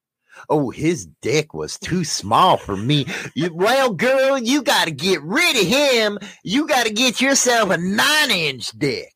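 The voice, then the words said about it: Half-hearted put-on Southern accent. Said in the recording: “Why are you trying to sound Southern, but not really?”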